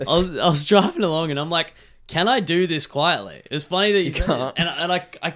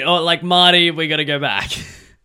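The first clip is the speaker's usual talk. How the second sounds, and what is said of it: Doc Brown character impression. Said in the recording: “my Doc Brown from Back to the Future impression”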